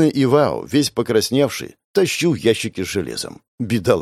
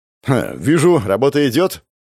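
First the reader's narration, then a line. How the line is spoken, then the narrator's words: Amused snort. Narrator (Russian): хмыкнул я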